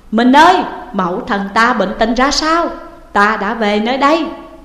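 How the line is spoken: Tearful loud hurried question. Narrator (Vietnamese): Thúc Bảo nhận ra tiếng của Trương Thị, nước mắt như muốn ứa, liền vội lớn tiếng hỏi

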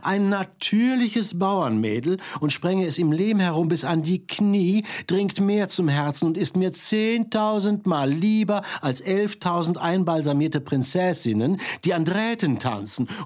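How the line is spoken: Called out. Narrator (German): rief einer

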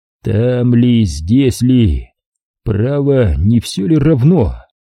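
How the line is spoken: Tired mutter. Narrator (Russian): устало пробормотал

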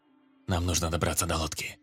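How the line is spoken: Whispered reply. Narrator (Russian): также шепотом ответил охранник

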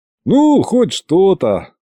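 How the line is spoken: Sighing while yawning. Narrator (Russian): вздохнул и зевнул одновременно

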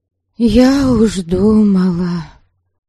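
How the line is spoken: Sighing. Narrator (Russian): вздохнула Добролюта

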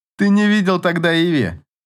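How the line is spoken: Laughing. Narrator (Russian): засмеялся Эйнар

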